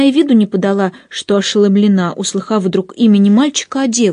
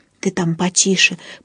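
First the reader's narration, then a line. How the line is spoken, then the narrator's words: Whispered. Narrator (Russian): прошептала она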